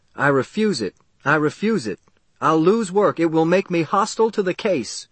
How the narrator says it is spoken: One of the men jumped up and shouted

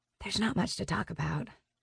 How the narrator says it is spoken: I whisper

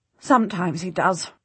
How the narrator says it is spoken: she says bitterly

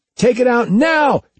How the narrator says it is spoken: Jeff yelled

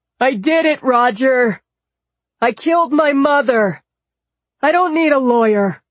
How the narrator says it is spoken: Michael called out

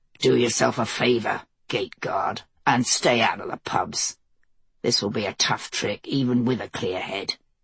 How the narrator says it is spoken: Mace growled

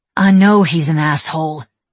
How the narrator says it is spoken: she snapped

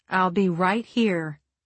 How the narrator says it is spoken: I said

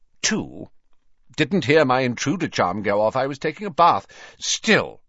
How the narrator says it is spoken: he added sternly, seeming to pull himself back together again

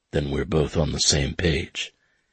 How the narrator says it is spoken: he said in a low, gravelly voice

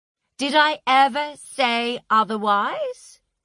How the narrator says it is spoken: he'd said to Ray, and he'd come close to raising his voice

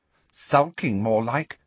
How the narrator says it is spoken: said Ginny

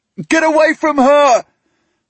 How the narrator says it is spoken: I try to shout at them

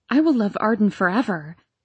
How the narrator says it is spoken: I cried fervently, fully believing this was the truth

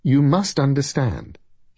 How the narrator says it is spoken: he said cheerfully

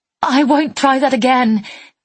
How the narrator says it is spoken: I said desperately

